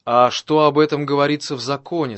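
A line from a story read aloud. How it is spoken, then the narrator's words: Plain. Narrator (Russian): спросил его Иисус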